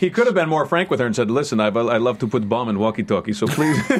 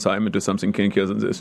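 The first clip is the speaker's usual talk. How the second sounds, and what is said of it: Put-on German accent. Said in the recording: “it was a German accent”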